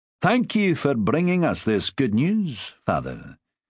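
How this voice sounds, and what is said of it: Strong Scots accent, slobbering speech. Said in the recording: “spoke with a strong Scots accent ... He slobbered a little in his speech, as if his tongue might be too big for his mouth”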